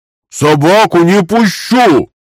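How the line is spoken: Angry yelling. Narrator (Russian): завопил трактирщик, заметивший сидящего у дверей Хима

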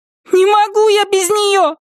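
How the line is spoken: Furious shout. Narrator (Russian): Яростно закричала Триша

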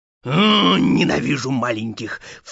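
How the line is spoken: Wolf's snort. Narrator (Russian): фыркнул волк

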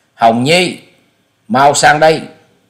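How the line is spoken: Alarmed loud call. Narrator (Vietnamese): Sắc mặt của ông liền biến đổi, lớn tiếng gọi

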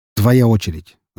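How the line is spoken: Angry. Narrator (Russian): зло сказал

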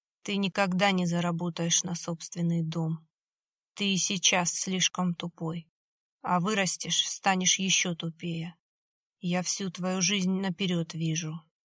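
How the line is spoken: Calm. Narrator (Russian): сказал спокойно

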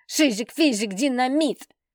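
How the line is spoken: Shout from distance. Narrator (Russian): отбежав на безопасное расстояние, крикнул

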